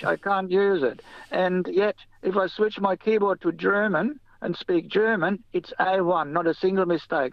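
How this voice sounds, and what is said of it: German-accented English. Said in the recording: “I've got a certain German accent”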